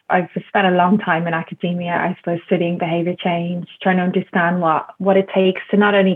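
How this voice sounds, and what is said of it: Irish accent. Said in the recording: “as you can probably tell from my accent, I'm Irish”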